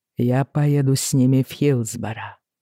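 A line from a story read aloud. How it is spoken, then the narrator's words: Quiet. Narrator (Russian): сказал он тихо Хираму Кромби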